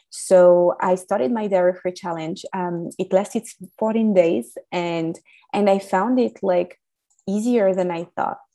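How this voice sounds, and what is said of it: French accent. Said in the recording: “As you can hear from my accent, I was raised in France.”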